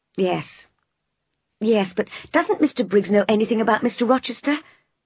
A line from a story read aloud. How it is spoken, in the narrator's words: I asked desperately